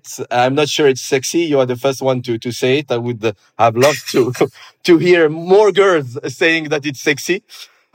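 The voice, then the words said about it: Mixed Arabic and French accent. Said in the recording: “I could get a strong French accent, but I do my best not to show it ... a mix between an Arabic and a French accent”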